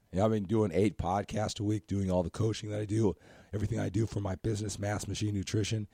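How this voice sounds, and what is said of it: Scratchy, strained, partly lost voice. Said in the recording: “as far as my voice qualities are concerned ... I start losing my voice because I do a lot of talking ... when I talk lower, it seems to be clearer. If I talk higher, it gets more scratchy”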